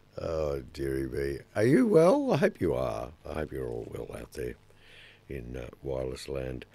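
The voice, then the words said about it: Hoarse, nearly lost voice. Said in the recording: “My voice is just about gone. It's gone.”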